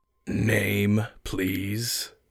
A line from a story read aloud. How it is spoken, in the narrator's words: rasped